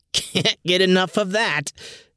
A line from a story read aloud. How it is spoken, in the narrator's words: Ben cackled